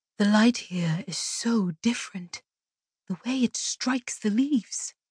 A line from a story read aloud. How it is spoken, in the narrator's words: Kalia murmured, gazing up